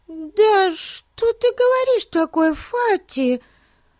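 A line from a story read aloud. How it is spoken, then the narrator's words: Extremely alarmed exclamation. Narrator (Russian): воскликнула встревоженная до крайности Бетси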